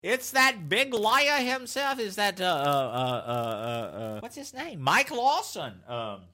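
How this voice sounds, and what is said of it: Imitates another person's voice. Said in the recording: “that was my Mike Lawson impression. ... that was terrible!”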